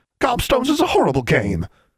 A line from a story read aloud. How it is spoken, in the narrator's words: they exclaimed